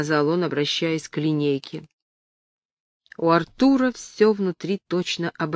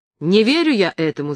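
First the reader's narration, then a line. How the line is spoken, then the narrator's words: Shout. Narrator (Russian): закричал Артур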